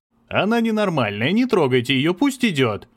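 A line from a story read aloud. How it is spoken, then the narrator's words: Shouting. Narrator (Russian): кричал кто-то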